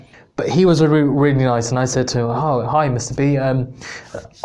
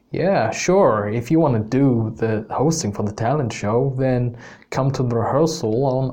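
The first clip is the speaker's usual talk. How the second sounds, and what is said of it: Put-on Canadian accent. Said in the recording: “that's the worst Canadian accent there ... bear with my accent here, but I'm going to try and bring the story to life”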